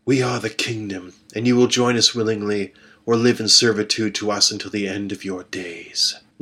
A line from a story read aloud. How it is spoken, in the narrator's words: Lethia said, her voice cold and confident